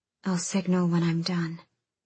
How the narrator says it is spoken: murmuring

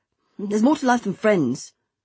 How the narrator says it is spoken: he snapped back

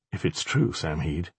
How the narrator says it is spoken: Alex said softly, almost helplessly

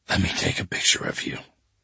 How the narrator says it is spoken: I whispered to her

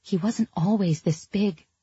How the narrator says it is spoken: the shark whispered

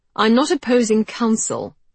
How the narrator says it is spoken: snapped Georgie

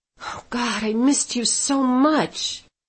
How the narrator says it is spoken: I whispered

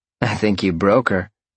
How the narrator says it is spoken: Roxy chuckled

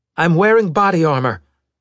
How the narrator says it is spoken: Meta shouted

